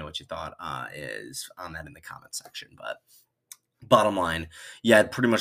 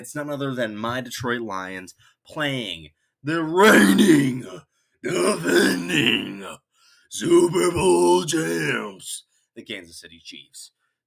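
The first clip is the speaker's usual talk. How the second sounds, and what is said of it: Wrestling announcer voice. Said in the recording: “Trying to do my best WWE voice there.”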